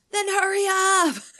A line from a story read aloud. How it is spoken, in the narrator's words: Amber shouted